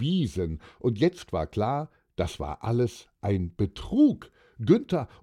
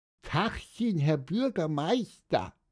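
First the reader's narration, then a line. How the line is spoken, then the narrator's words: Squeaking. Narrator (German): piepste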